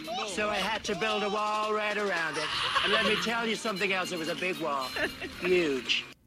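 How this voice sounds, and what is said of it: Donald Trump impression. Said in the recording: “Doing a Trump impression is not easy, and especially when you're, you know, from the UK.”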